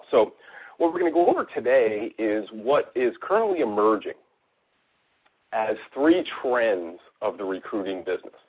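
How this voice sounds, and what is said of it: Voice sounds off, as if sick. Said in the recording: “I'm battling a little bit of a cold here, so sorry if I sound a little different than I normally do”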